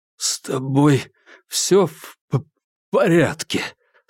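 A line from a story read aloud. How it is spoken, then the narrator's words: Strained, forced words. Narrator (Russian): с трудом выдавил Курц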